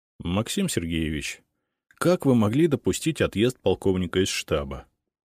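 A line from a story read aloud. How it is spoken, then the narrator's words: Forced calm. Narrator (Russian): Старался говорить спокойно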